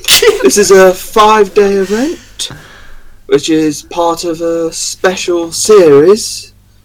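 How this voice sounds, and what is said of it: Unusual accent with odd rising inflections. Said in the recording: “I love that accent. What is it? ... It's very odd. He's got weird like rise and inflections.”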